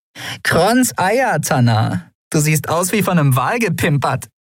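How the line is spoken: Dirty laughing voice. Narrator (German): Sie lachte ihr unwiderstehliches, dreckiges Lachen

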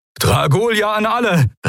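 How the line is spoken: Called out. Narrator (German): rief

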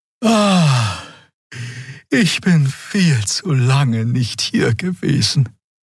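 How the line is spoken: Sighing. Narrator (German): seufzte Xea

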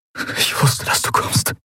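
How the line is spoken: Breathless between kisses. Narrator (German): brachte er atemlos zwischen den Küssen hervor

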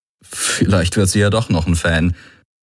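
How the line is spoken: Embarrassed murmur. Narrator (German): murmelte er mit verlegenem Grinsen

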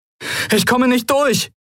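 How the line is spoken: Called out. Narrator (German): rief Kai

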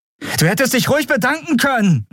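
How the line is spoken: Calling out. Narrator (German): rief sie

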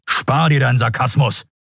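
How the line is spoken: Barked retort. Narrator (German): bellte Telios

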